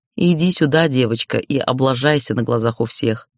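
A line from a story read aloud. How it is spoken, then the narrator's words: Mocking, condescending. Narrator (Russian): Насмешливо, свысока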